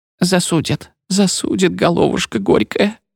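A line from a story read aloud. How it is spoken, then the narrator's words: Sobbing. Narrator (Russian): то всхлипывала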